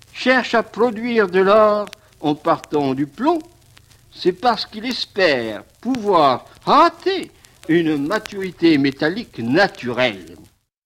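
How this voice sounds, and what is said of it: Burgundian French accent. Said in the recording (French): “Bel accent bourguignon”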